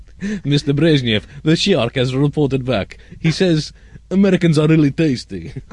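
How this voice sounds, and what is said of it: Various put-on comedic accents. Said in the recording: “I've got quite a wide range of accents today.”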